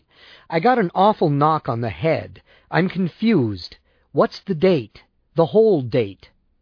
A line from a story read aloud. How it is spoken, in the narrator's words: I said urgently